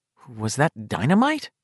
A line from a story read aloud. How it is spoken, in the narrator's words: Beverly asked nervously